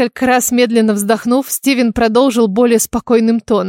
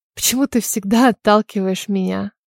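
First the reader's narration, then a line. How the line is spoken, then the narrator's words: Sad whisper. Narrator (Russian): С грустью прошептала я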